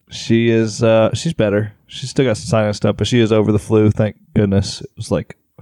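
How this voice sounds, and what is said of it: Sick-sounding, altered voice. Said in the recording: “my voice is a little different now ... did you get sick? ... I did get sick.”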